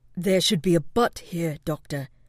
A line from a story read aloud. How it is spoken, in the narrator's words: Silver growled